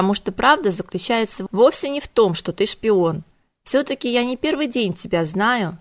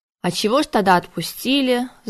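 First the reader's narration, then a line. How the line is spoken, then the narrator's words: Sigh. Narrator (Russian): вздохнул Конгрэм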